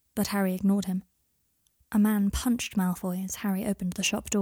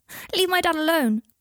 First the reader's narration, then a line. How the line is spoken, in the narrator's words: cried Scorpius shrilly